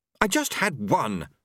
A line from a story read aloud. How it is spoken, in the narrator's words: she snapped